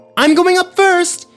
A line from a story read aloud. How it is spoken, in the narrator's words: yelled Parker